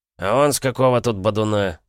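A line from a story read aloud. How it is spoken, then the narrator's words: Rude inquiry. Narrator (Russian): грубо осведомился худенький Вересаев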